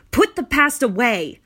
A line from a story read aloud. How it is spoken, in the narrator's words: shouted